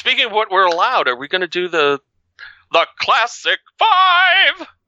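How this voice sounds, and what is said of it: Imitates another person's voice. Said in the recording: “not my best Paul Lind imitation this morning, but not too terrible, maybe.”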